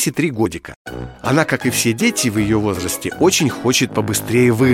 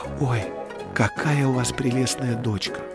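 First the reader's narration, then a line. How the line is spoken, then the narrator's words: Young mother speaking softly. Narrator (Russian): Молодая мама тихонько, чтобы не разбудить своего малыша, сказала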